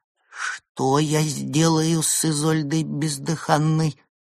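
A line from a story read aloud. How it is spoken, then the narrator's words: Trembling voice. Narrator (Russian): дрожащим голосом произнес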